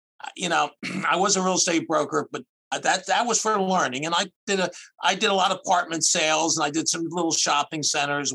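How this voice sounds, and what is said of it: Philadelphia accent. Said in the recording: “I'm from outside of Philadelphia. You could probably tell by my accent or whatever. So I'm a Philadelphia and Jersey boy.”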